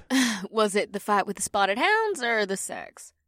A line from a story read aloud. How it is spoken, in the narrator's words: The rhino woman giggled